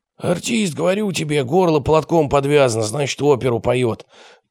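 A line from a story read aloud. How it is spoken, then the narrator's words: Hoarse wheeze. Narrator (Russian): просипел гроза поселковых садов Михаил Квакин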